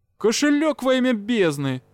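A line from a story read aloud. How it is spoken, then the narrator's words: Exclaiming. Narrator (Russian): воскликнул Юрао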